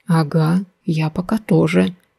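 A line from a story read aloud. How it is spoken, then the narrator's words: Even quieter reply. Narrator (Russian): еще более тихо отозвался он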